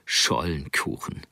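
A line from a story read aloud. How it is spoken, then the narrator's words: Chuckling murmur. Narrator (German): Er gluckste, murmelte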